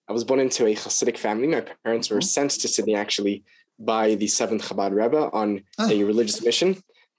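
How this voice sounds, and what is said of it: Australian accent with American influence. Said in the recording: “My dad's American, which is why my accent is not fully Australian.”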